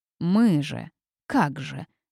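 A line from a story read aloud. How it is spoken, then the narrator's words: Grumbling innkeeper. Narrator (Russian): заворчал трактирщик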